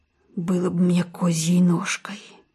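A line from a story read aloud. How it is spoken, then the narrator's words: Muttering. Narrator (Russian): бормочет фельдшер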